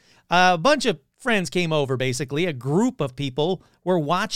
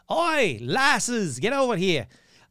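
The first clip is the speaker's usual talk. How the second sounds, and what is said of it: Poor put-on Scottish accent. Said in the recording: “terrible Scottish accent”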